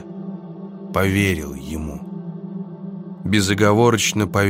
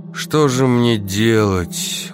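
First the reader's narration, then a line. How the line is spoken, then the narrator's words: Dejected question. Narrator (Russian): уныло спросил я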